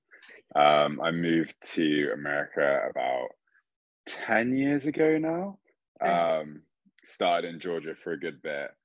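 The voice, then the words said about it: English accent. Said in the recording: “I am English. You can't gather by the accent.”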